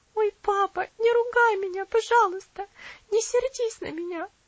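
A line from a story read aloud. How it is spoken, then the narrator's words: Sobbing girl. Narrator (Russian): всхлипнула девочка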